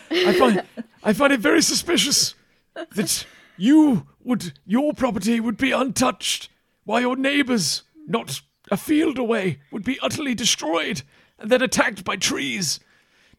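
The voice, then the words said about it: Character voice with put-on accent. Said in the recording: “I'm doing the accent again and I don't mean to.”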